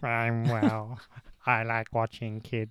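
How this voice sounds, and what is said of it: Imitates another person's voice. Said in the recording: “I'll do an impression if you want.”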